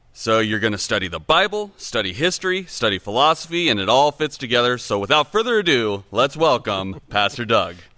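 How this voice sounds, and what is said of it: Polished radio announcer voice. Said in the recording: “Love your radio voice.”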